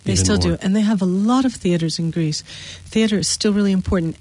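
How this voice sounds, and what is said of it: American English accent. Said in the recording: “you can hear from our accents that we're from the U.S.”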